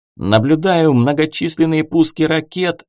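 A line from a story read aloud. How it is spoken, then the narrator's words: Navigator yelling. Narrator (Russian): заорал штурман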